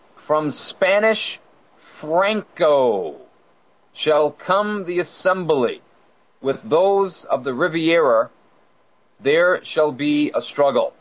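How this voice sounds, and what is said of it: New England accent, intrusive R. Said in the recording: “my New England accent got in there. There's no R at the end of Riviera. Only in New England there is.”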